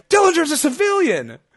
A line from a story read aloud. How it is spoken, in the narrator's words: JR shouts